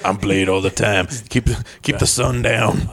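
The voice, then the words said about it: Grunty, poor Wesley Snipes impression. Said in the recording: “my Wesley Snipes ... You're a little too grunty. Wesley Snipes was very smooth. ... terrible impression ... it sounded nothing like Wesley Snipes”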